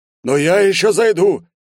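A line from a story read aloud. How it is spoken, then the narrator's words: Desperate exclamation. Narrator (Russian): с отчаянием воскликнул неудачливый ухажер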